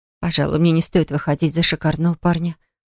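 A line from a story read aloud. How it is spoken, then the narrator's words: Muttered. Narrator (Russian): пробормотала Флора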